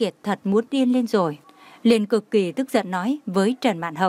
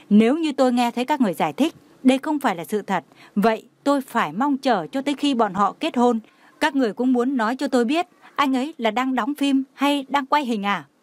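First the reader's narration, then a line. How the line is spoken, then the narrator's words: Furious, trembling voice. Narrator (Vietnamese): đã tức giận đến sắc mặt trắng bệch, cả người phát run nói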